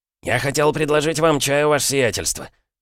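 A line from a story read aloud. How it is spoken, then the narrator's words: Babbling timidly. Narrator (Russian): пролепетал Захар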